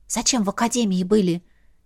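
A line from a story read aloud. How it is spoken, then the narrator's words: Quiet question. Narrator (Russian): тихонько спросила Ветка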